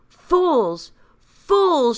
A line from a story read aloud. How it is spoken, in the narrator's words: shouted Benjamin